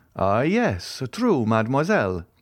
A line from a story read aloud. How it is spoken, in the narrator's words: exclaimed Monte Cristo, as if this simple explanation was sufficient to revive the recollection he sought